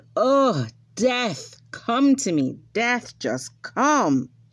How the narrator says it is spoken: he was so weary and tired on his journey, it was so long, cried out

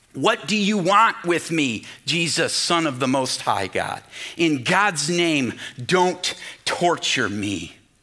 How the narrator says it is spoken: at the top of his voice, the demons answer

